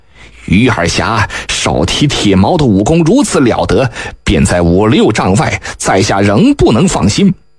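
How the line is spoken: Old beggar, smiling. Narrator (Chinese): 那老丐微笑道

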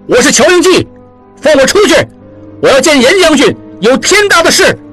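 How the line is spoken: Shouting. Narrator (Chinese): 大力打门叫道

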